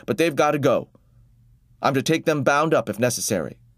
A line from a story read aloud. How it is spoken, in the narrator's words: the officer said hastily